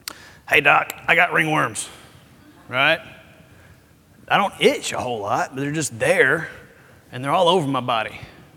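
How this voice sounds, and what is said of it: Raspy heavy smoker's voice. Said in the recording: “I'm doing my voice like that because she smoked 2 packs a day”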